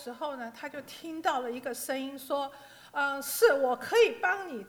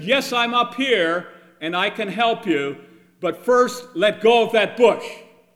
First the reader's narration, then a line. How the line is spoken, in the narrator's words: this booming voice instantly answered